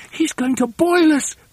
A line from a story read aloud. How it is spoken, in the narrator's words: cried